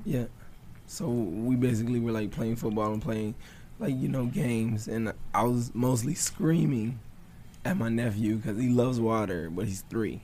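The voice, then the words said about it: Unusually deep, strained voice. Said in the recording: “my voice, not saying my voice is a weak voice, but it always does this ... now I look like I'm going through puberty again ... Very deep, very ... that's deep for me”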